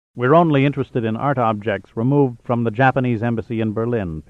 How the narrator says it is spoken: Pitt answered

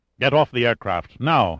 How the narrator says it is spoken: ordered gruffly

